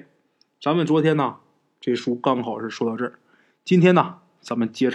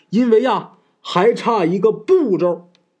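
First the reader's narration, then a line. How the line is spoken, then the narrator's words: Shout. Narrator (Chinese): 吴大师啊…喊了一声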